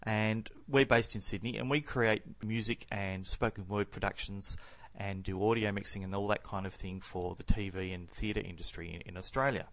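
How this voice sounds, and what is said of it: Australian accent. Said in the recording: “You might be able to tell by the accent that I'm not from Northern Hemisphere.”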